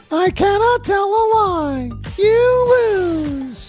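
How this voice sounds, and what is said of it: Game show character impression. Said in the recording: “That's my press your luck impersonation.”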